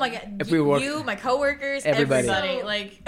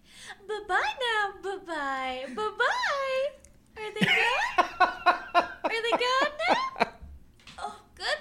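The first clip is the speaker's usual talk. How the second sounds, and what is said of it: Imitated Toy Story Barbie voice. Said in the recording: “My favorite impersonation... the Toy Story Barbie”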